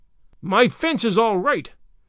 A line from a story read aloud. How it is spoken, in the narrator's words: snapped Mr